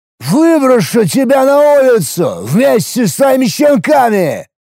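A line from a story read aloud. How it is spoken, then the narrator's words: Drunken yell. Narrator (Russian): Проорал я пьяным голосом в ответ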